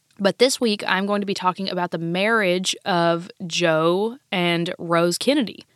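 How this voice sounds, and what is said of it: Slightly off voice from a cold. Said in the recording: “I am recovering from a cold, so if I sound a little off ... my voice isn't too bad”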